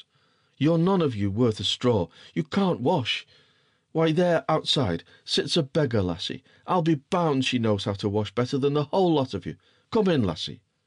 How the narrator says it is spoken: he shouted

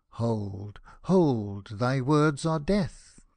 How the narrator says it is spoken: the stranger cried

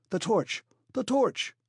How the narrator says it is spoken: cried the professor

